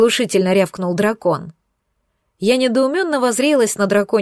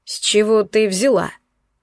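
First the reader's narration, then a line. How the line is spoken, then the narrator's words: Skeptical snort. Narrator (Russian): скептически хмыкнул Алкион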